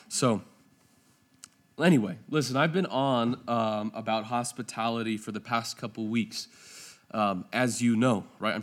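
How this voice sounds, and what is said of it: Strained, failing voice. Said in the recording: “They're going to have to forgive me. My voice is going to, it's going to go out.”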